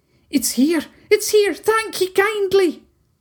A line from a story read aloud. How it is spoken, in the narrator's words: a group of 7 haggis exclaiming at the stone